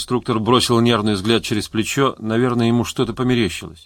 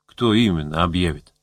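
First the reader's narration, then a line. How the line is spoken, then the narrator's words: Plain. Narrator (Russian): спросил Гусев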